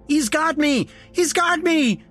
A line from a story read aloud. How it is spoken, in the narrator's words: he screamed as he collapsed back down